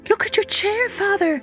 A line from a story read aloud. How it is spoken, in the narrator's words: Marigold cried